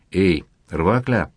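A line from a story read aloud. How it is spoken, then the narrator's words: Quiet call. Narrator (Russian): негромко окликнул его маркиз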